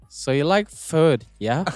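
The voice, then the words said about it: Put-on Valley girl accent. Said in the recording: “What accent is that, bro? ... Valley girl.”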